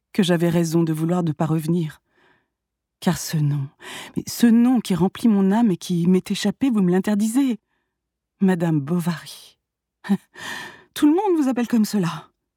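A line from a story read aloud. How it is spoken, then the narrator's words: Melancholy voice. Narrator (French): répliqua-t-il d'une voix mélancolique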